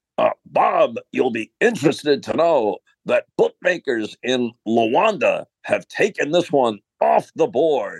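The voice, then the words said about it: Impression of sportscaster Marv. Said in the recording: “That is a tremendous imitation, by the way. Well done, or impersonation.”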